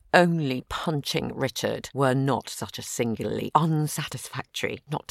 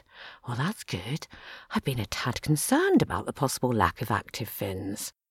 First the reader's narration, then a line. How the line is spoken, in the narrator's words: murmured